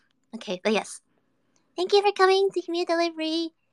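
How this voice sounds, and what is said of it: Usual voice. Nothing is said of it.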